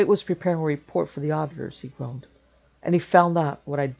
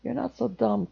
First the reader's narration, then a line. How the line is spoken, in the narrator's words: Kane muttered